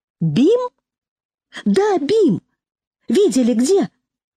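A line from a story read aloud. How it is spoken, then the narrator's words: Agitated exclamation. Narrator (Russian): Седой ... с нескрываемым волнением воскликнул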